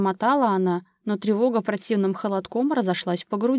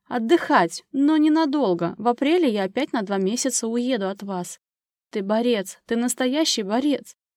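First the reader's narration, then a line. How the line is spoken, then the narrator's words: Sobbing. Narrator (Russian): Анжела не удержалась и всхлипнула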